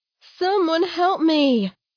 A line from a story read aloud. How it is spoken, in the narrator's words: she called out